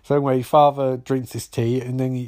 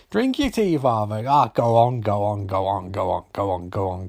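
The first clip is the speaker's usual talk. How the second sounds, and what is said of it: Weak attempt at a character's accent. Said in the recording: “the one off from Father Ted's like, drink your tea, Father. I can't do the accent”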